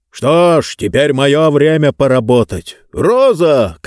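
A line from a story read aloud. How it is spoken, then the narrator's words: Shouted. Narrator (Russian): крикнул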